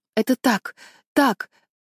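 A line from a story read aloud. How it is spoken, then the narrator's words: Stammering, gasping for air. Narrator (Russian): запинаюсь, хватая ртом воздух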